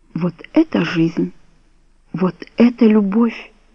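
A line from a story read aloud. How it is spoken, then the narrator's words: Whisper. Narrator (Russian): прошептала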